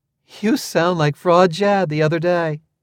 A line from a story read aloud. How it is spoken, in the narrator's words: she exclaimed, with obvious affection